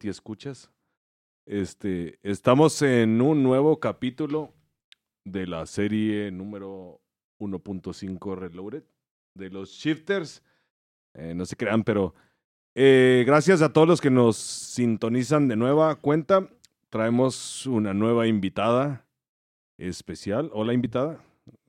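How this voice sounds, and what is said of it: Radio announcer voice. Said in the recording (Spanish): “traje mi ah. voz de locutor. ... Déjame eh, hablar con mi voz normal. switch de off de locutor.”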